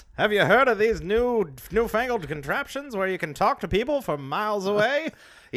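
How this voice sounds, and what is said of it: Old-timey 1950s announcer voice. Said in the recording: “1950s announcer voice ... We just talk in that old voice.”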